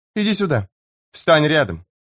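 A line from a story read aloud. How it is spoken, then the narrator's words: Sudden stern command. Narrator (Russian): приказала Тавор внезапно строгим голосом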